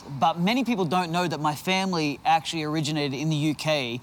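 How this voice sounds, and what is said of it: Australian accent. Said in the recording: “a lot of people know that we're from Australia. ... You can tell by our accents.”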